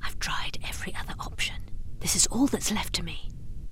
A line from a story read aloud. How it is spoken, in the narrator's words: In a barely audible voice, the man muttered